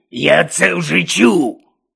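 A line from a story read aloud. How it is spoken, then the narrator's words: Barked. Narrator (Ukrainian): гаркнув Гонт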